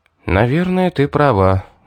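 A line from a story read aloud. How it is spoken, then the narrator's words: Sighing. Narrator (Russian): вздохнул я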